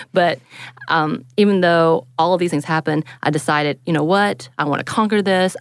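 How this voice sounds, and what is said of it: Slight Southern American accent. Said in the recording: “now I have a bit of a Southern accent”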